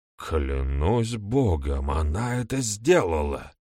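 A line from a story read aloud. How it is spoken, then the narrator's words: Muttered. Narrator (Russian): пробормотал старший стюарт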